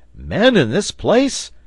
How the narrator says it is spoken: cried the reporter

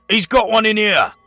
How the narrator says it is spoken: yelled

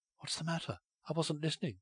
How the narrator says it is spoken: she whispered

